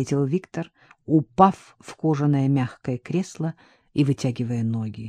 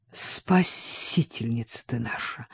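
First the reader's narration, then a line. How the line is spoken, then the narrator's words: Mumbled. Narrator (Russian): пробормотал Вадим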